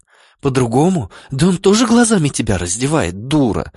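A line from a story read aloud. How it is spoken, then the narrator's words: Hissed into ear. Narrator (Russian): зашипела мне на ухо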